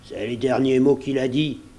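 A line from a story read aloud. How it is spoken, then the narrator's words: Old man moaning. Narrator (French): gémit le vieux Morgan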